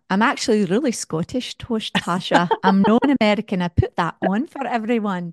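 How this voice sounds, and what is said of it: Put-on Scottish accent. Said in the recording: “that's a very good Scottish accent”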